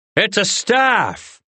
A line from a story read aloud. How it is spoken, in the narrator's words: Rin hollered back